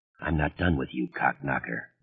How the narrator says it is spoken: George Stark said softly

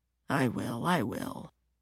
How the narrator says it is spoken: mumbles

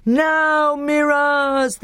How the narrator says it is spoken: they yelled

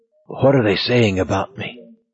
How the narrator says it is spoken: whispered hoarsely

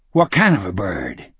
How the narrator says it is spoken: Speedy asked sharply

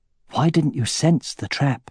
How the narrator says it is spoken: He asked Elva in an undertone

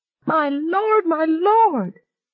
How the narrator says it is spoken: continued to shriek

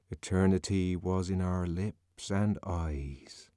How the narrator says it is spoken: he murmured

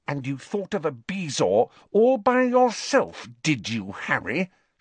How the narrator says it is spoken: she asked through gritted teeth

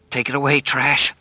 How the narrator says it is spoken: Lloyd whispered

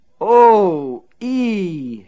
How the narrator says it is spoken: she moaned

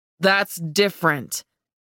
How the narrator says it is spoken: he growled, seeming agitated

